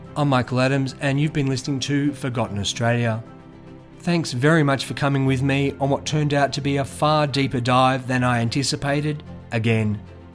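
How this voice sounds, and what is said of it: Rough, sick-sounding voice. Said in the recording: “As you might be able to hear in my voice, I've had a case of bronchitis”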